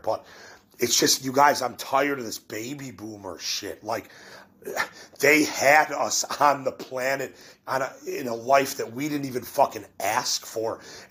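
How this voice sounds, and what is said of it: Voice not fully recovered, slightly impaired. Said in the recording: “my voice is getting better, but it's still not all the way there”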